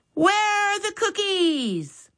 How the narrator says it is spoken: Max yelled

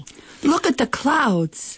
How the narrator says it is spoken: she shouts

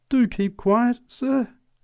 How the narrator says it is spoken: pleaded the preacher

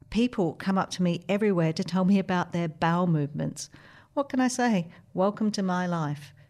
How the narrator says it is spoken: she laughed

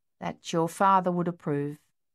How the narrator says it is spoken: she replied slowly

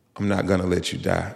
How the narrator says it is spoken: in the most assuring voice, she said

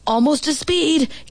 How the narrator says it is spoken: Gibby's dad hollered

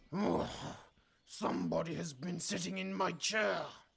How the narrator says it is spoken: bellowed in his big, growly voice

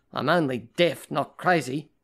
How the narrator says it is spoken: his mother snapped

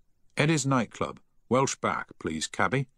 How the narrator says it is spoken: he said firmly

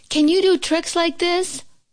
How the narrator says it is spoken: cried Toad

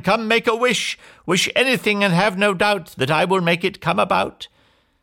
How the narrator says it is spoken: she cried

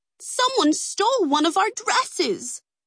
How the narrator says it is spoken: the women cried in unison

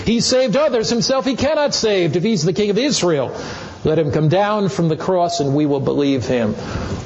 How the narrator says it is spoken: the chief priest also mocking with the scribes, the elders said

